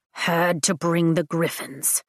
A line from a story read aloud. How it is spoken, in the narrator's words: Tarn mutters